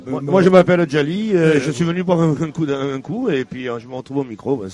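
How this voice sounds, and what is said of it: Marseille French accent. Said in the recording (French): “Avec un accent marseillais peut-être, non?”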